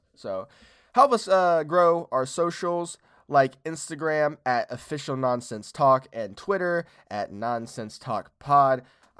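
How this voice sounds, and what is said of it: Hoarse, congested voice. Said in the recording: “I have a cold and my throat is fucking fucked”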